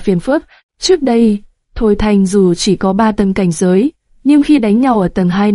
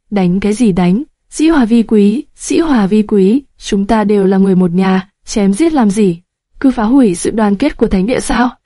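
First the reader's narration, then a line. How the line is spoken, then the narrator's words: Loud laughing voice. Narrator (Vietnamese): Ha ha, Kiếm Lan không nhịn được cười lớn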